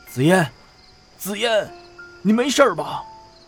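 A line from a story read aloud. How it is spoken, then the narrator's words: Excited shout. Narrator (Chinese): 吴凯生激动的大叫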